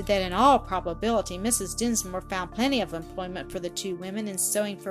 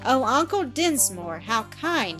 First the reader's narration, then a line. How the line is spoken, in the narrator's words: exclaimed